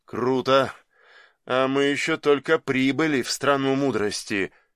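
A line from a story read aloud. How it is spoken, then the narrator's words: Sigh. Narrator (Russian): вздохнул Крымов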